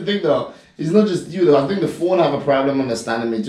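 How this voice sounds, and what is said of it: Grenadian English accent. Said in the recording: “has an accent ... it'll pick up your accent”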